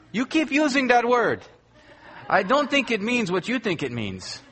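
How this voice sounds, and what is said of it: Poor Inigo Montoya accent impression. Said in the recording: “like Inigo Montoya said to Vicini in Princess Bride ... Forgive the accent. It's poor”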